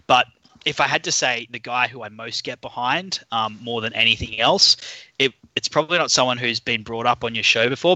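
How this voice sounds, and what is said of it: Australian accent. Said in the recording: “for those of you who can't tell by my accent, I'm I'm an Aussie”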